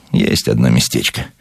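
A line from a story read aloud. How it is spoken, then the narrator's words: Evasive superstitious mutter. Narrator (Russian): уклончиво, суеверно пробормотал он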